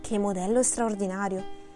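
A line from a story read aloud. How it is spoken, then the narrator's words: Whispering. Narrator (Italian): sussurrò Hughie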